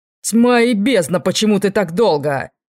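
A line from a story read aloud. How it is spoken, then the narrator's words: Growling mentor. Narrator (Russian): зарычал наставник Нориэля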